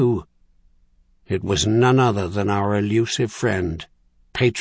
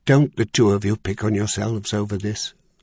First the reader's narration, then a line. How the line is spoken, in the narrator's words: Charlian had scolded